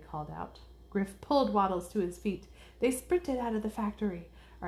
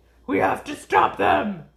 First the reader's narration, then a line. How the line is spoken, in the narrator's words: Ace barked